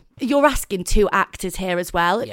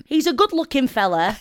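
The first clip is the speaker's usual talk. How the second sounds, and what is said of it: Put-on Preston accent. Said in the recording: “can you read it in a Preston accent?”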